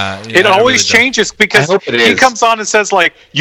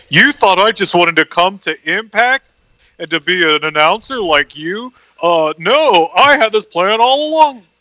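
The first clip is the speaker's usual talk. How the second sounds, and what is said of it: Imitates another person's voice. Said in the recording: “this is a great Don Callis impression... That really was actually. That was actually really good.”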